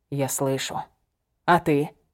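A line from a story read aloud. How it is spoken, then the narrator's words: Quiet. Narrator (Russian): тихо проговорил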